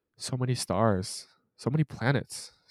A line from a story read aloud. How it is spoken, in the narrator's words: sighed Jaredine, busy with her own thoughts